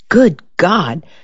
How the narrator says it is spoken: Shore exclaimed

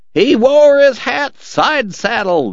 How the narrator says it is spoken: the cowboys yelled, laughing their heads off

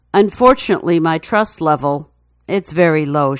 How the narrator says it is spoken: Chantel says

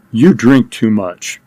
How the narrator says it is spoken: Sternly, he said

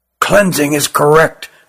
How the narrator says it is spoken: whispered Ruggum

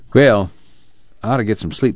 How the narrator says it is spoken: said Al

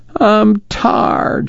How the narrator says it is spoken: she whined

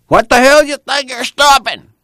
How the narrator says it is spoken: the last driver yelled

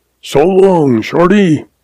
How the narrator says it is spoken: He hollers

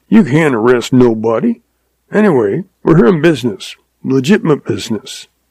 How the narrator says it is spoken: chuckled

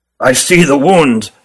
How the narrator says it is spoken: said Ruggum gravely

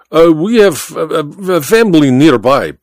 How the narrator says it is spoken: Baba stammered

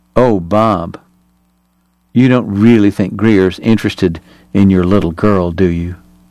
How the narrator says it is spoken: in merry astonishment, she purred

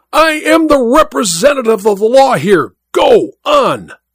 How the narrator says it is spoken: The judge cried out at him in a terrible voice

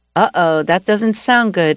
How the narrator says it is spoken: I said

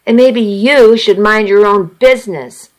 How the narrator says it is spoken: I snapped

